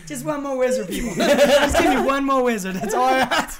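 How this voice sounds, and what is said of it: Weird put-on accent. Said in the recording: “Weird accent”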